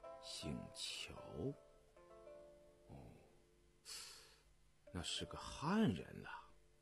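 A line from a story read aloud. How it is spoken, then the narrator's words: Half-questioning murmur. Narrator (Chinese): 雍正似乎问话，又似乎喃喃自语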